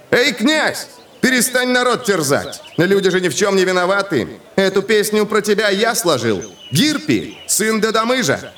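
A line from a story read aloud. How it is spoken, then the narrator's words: Young man shouting. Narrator (Russian): крикнул юноша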